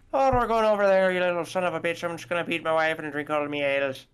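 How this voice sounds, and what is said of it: Put-on Irish accent, higher pitched. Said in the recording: “Irish is more up here”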